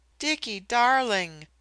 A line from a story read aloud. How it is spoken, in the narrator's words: the voice from the bed rose pleadingly